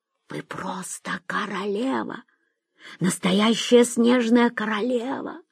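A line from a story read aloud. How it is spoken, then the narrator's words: Whisper in ear. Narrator (Russian): шепнул Шурик в ухо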